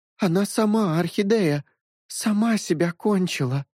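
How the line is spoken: Tearful whimper. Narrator (Russian): Прохныкала … брюнетка с припухшими глазами

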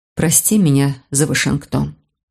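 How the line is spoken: Quiet. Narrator (Russian): тихо произнесла она

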